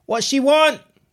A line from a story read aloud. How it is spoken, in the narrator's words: the woman yelled